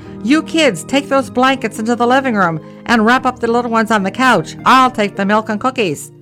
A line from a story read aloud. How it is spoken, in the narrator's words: My mother opened the door and shouted